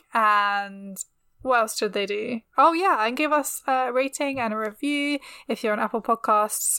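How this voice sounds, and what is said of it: British accent. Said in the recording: “my classic British accent”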